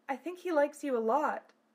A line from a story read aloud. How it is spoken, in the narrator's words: Silphiel giggled